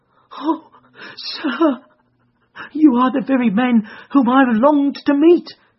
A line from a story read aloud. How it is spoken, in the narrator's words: cried the little fellow